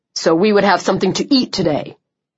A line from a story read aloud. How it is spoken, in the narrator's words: Chubb snapped